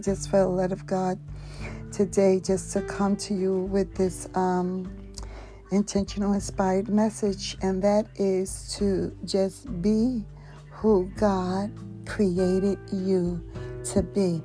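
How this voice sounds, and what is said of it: Hoarse voice, not yet natural. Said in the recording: “I've been experiencing laryngitis, and it's been taking a little longer for my my voice to my natural voice to return”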